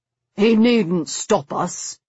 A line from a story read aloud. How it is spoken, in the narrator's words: he said grimly